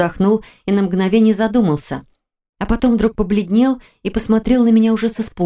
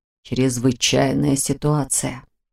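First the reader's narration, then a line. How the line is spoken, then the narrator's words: Muttering, then more confident. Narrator (Russian): пробормотал он, но потом продолжил уже более уверенно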